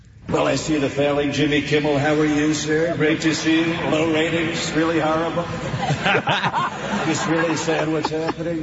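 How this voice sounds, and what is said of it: Donald Trump impression. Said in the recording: “he did a Trump impersonation ... Impersonating Donald Trump”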